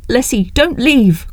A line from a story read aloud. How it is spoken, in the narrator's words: cried her aunt